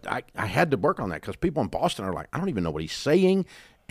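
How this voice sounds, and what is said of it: Slight Southern US accent. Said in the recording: “I'm from the South and I have a Southern accent ... I got rid of about 80% of my country fried redneck accent. I kept a little for flavor”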